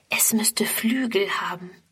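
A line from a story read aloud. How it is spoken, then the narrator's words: Whispered. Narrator (German): flüstert Friedrun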